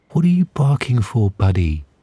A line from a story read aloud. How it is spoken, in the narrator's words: She asked sweetly